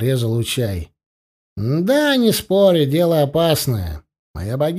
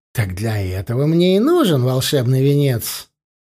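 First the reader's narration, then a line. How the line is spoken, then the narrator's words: Heavy sigh. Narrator (Russian): Тхири тяжело вздохнул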